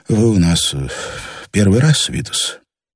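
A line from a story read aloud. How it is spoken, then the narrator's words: Disappointed sighing question. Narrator (Russian): разочарованно и шумно вздохнул и спросил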